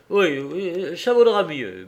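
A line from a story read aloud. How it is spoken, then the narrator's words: Stammering. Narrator (French): bégaya le chauffeur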